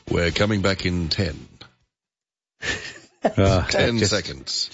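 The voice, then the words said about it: Succinct, urgent radio announcer voice. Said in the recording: “do your radio voice again. That's really good. You've got that fabulous radio voice. ... Succinct. ... Bit of urgency about it. ... a little touch of panic perhaps as well. ... And a hint of disdain.”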